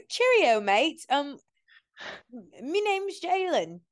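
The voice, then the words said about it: Put-on English accent. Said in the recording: “the accent ... that was just something I cooked up ... oldie English ... she taught me how to talk”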